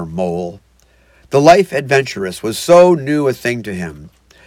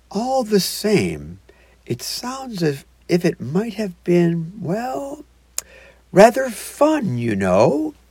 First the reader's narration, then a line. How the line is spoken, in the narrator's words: he added wistfully